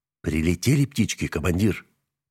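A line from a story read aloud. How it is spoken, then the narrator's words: Whispered. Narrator (Russian): прошептал Нагорный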